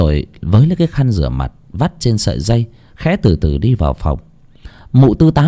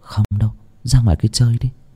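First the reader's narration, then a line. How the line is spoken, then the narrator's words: Smiling. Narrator (Vietnamese): Lan mỉm cười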